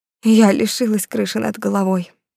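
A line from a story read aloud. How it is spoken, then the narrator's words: Breathless, crying. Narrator (Russian): выдохнула она и снова залилась слезами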